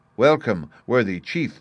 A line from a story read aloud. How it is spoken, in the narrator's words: they cried